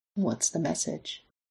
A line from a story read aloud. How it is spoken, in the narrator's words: he asks softly